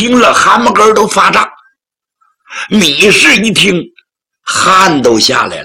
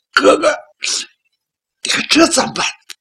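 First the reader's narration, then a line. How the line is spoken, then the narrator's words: Crying. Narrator (Chinese): 米氏就哭了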